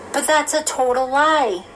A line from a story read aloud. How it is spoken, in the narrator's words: Amanda exclaimed